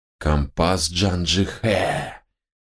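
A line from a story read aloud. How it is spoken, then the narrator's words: Conspiratorial whisper. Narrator (Russian): заговорщическим шепотом проговорил Хануман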